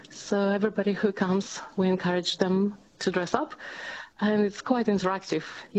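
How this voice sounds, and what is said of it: Slight Latvian accent. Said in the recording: “you probably picked my accent... Oh, yeah, a little bit... I was born in Europe... I'm from Latvia”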